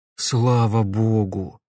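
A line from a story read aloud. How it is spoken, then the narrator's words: Relieved exhale. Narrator (Russian): облегченно выдохнул Назаров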